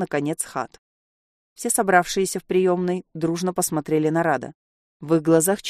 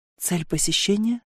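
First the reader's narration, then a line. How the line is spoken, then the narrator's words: Barely audible whisper. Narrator (Russian): еле слышно шепнул он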